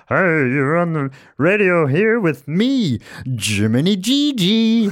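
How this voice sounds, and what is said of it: Funny radio-host character voice. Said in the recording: “he puts on a funny voice.”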